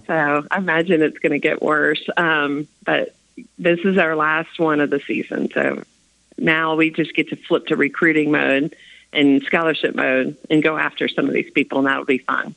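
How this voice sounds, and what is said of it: Raspy, hoarse voice. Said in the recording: “As you can hear, I'm raspy still.”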